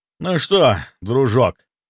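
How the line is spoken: Tired, hoarse voice. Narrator (Russian): сказал я устало, голос хрипел

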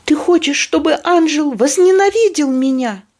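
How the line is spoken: Shouting. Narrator (Russian): крикнула Кенди

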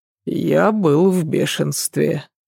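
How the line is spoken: Sigh. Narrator (Russian): вздохнул Адам

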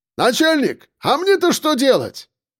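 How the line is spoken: Shouting after someone. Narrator (Russian): крикнул вслед Акбар

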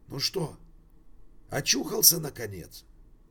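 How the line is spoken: Husky familiar voice. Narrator (Russian): спросил кто-то хрипловатым, знакомым голосом

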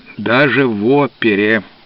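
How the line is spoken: Gloomy reply. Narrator (Russian): мрачно ответил он

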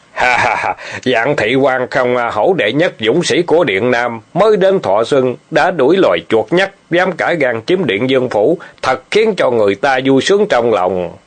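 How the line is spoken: Loud laughter from afar. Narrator (Vietnamese): Thả Lăng Vương từ xa đã cười lớn

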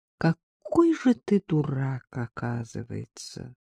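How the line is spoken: Quiet, contemptuous woman. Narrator (Russian): сказала Агнесса тихо и презрительно

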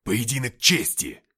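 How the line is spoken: Barking. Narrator (Russian): рявкнул Деймос

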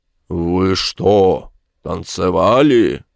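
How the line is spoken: Menacing question. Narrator (Russian): спросил он грозным тоном

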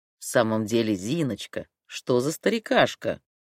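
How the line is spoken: Affectionate singsong. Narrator (Russian): ласково пропел он

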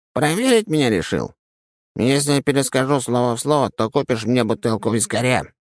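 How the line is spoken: Squeaky inner voice. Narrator (Russian): пропищал голос в моей голове

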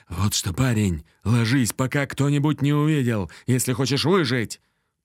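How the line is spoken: Hissing soldier. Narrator (Russian): прошипел мне в ухо солдат

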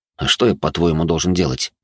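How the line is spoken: Calm reply. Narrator (Russian): спокойно ответил я

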